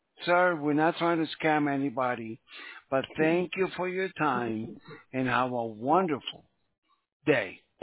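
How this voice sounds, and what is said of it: Foreign accent. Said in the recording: “I know your accent from a fucking million miles away.”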